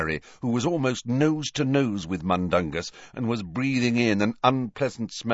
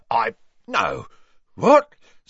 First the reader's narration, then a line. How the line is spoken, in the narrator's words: spluttered Mundungus, who was turning slowly purple